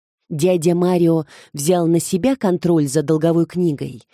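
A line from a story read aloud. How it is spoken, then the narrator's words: Plain question. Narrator (Russian): спросила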